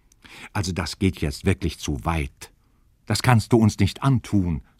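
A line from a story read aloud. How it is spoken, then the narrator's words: Plain. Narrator (German): sagte die Königin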